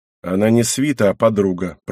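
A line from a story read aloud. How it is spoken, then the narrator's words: Mutter after pause. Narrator (Russian): пробурчала Шина через пару мгновений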